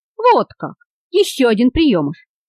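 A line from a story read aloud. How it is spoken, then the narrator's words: Friendly smiling exclamation. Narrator (Russian): воскликнул, дружески улыбаясь, Андре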